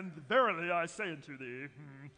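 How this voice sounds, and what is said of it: Formal put-on British accent. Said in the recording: “I read in a very formal way when I'm reading scripture. You know, do you ever read in a British accent?”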